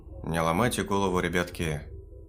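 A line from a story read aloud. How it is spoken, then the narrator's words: Sigh. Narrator (Russian): вздохнул Егорыч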